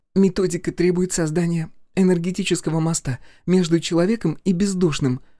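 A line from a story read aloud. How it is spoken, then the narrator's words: Trembling voice. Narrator (Russian): продолжала она дрожащим голосом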